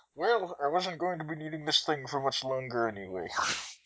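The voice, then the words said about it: Sketchy imitation of another person's voice. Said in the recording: “That was a sketchy Sean Connery accent”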